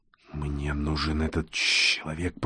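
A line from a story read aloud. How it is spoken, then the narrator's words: Hissed, sing-song. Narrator (Russian): прошипел, пропел Чужой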